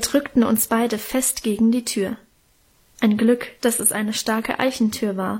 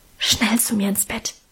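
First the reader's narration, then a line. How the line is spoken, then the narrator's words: Whispered. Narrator (German): flüsterte sie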